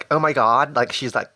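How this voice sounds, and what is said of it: Put-on Valley Girl accent. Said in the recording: “the Valley accent ... is associated with Valley Girls ... to make people sound more ditzy”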